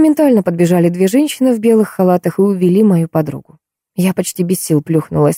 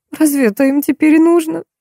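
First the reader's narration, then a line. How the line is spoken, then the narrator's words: Hysterical sobbing. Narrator (Russian): дернулась Милка и истерично зарыдала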